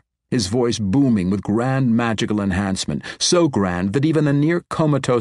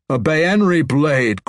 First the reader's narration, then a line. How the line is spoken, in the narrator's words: Gromph roared